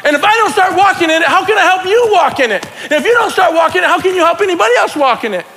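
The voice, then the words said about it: Excited yelling. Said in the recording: “I'm not yelling at you guys. I'm just yelling because I'm getting excited. Gosh, I'm yelling.”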